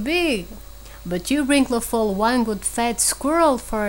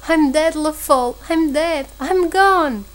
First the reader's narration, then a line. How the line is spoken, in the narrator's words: He moaned piteously